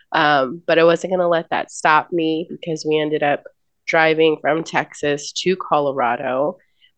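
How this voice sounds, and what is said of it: Congested, sick-sounding voice. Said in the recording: “I sound terrible. ... got a terrible sinus infection”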